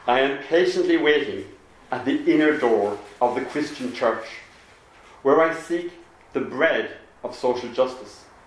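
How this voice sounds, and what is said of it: Put-on Belfast accent. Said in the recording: “in my best Belfast accent”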